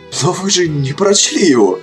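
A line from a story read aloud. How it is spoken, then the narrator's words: Desperate exclamation, cut short. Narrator (Russian): в отчаянии воскликнул Кадгар и тут же осекся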